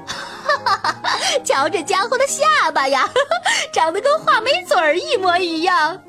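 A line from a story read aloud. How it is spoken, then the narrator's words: Loud laughing speech. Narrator (Chinese): 他一边放声大笑，一边高声说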